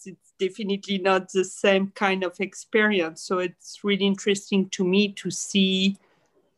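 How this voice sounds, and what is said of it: French-accented English. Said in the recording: “I came to the USA from France ... my accent and being loud”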